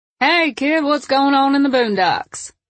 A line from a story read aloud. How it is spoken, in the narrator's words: Lacey giggled